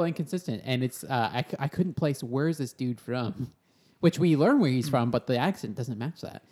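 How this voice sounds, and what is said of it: Usual voice. Nothing is said of it.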